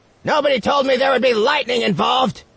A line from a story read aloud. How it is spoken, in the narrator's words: Boxy yelled in frustration